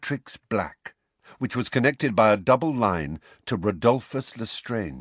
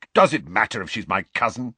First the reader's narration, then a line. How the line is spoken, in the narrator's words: snapped Sirius